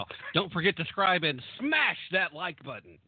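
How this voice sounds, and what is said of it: Imitates a typical YouTuber voice. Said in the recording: “my impersonation of every YouTuber on the planet”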